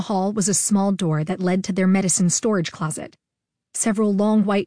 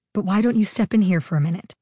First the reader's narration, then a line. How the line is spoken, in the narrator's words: she said calmly